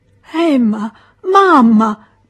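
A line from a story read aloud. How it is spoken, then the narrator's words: Whimpering, placating. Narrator (Italian): piagnucolava Charles per pacificarle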